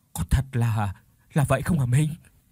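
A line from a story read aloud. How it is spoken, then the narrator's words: Stammering, trembling question. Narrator (Vietnamese): mồm run lên cầm cập, lắp bắp hỏi từng chữ một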